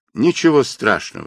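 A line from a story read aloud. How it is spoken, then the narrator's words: Plain. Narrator (Russian): сказал я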